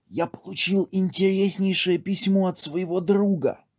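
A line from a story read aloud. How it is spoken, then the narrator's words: Whispering. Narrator (Russian): шепотом продолжал Зай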